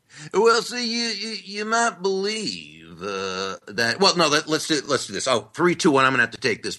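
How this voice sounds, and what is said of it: Usual voice. Nothing is said of it.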